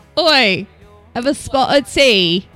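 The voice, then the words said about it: Poor attempt at Cockney accent. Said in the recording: “The Cockney accent. I keep wanting to go into a Jewish mother accent. ... It's terrible.”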